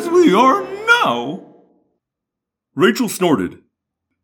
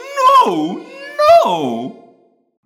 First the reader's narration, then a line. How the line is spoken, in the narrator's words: Guide pleaded, wanting a way through his diaphragm